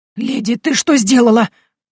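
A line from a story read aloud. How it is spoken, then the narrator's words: Agitated exclamation. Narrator (Russian): взволнованно воскликнул Дон Ивен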